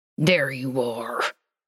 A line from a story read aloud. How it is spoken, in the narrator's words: Dean said through gritted teeth